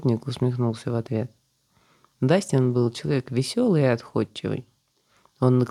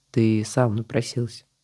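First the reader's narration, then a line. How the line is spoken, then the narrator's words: Calm reply. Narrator (Russian): спокойно ответил Алик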